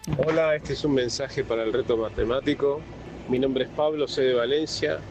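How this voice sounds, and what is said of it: Argentine or Uruguayan Spanish accent. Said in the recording (Spanish): “con acento argentino, bueno, uruguayo.”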